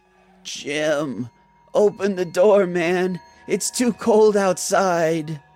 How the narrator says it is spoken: Someone said in a tired voice

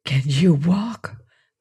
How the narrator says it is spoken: breathed Mansell

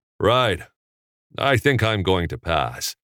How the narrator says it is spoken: Peck said

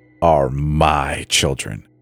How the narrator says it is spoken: Dad snarled, all pretense of calm evaporating

